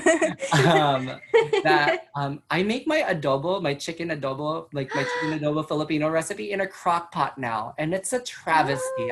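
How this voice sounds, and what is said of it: Los Angeles accent. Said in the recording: “I'm so deeply connected with being from LA, because that's how I got this accent.”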